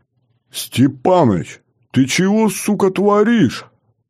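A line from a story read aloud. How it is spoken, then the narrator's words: Yelled. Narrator (Russian): От двери заорал тот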